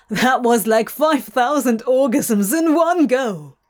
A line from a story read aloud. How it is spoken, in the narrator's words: Crowley barked